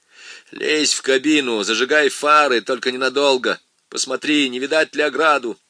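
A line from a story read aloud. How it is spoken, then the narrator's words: Harsh bark. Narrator (Russian): рявкнул на остальных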